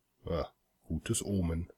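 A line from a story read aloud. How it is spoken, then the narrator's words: Murmuring. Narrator (German): murmelte ich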